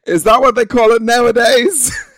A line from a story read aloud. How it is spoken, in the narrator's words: my best friend and cousin, who knew what was happening, screamed down from the top of the class